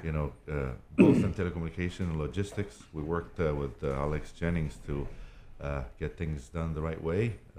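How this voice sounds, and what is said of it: Foreign accent in English. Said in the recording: “speaking of international, where's that accent from?”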